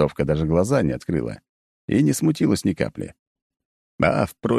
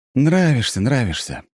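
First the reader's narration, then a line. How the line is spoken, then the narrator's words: Sighing. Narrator (Russian): вздохнул я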